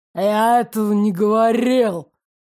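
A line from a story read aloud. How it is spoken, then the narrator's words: Growling. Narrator (Russian): прорычал Ирик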